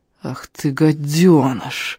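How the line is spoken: Offended, through gritted teeth. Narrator (Russian): Обиженно процедил Даннер

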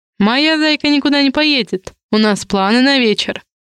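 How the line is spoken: Snide remark. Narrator (Russian): Ехидно произнес Димка

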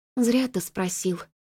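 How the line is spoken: Sighing. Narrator (Russian): вздохнула Флори

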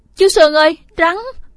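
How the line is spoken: Strangled, voiceless scream. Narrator (Vietnamese): miệng hét không ra tiếng gì lạc giọng

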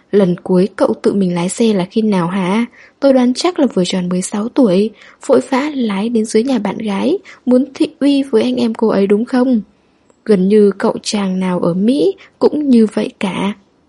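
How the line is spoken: Loud laughing. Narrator (Vietnamese): McLean cười to

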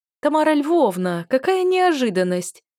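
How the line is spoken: Cheerful exclamation. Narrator (Russian): весело воскликнула

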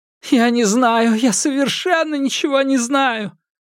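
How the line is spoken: Sobbing over the phone. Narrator (Russian): разрыдалась в трубку, повторяя

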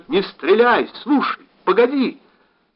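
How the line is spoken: Urgent shout. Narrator (Russian): он все же успел крикнуть

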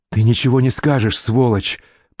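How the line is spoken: Hissed. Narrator (Russian): прошипел Генри

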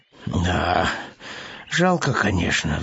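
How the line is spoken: Sighing. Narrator (Russian): вздохнул Пэтсон

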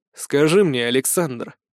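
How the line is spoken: Icy tone. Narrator (Russian): ледяным тоном обратился

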